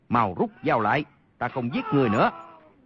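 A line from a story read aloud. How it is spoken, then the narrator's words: Panicked loud shout. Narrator (Vietnamese): Y qua cơn kinh hoàng, vội quát lớn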